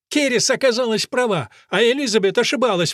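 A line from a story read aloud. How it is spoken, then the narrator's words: Exclamation. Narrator (Russian): воскликнула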